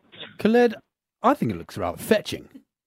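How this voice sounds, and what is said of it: Put-on accent drifting in and out. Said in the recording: “what is with that accent? ... it drifts ... in and out.”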